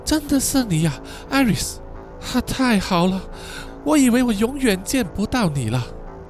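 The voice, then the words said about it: Weak, sad voice. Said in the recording (Chinese): “用虚弱又悲伤的声音说”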